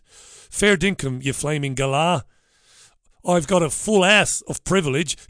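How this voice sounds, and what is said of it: Attempted Australian accent. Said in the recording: “I'm not even going to attempt an Australian accent. I can barely do my own accent... I don't know what that is, that accent.”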